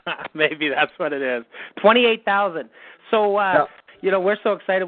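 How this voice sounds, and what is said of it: Missouri accent. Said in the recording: “I think it's that Missouri accent.”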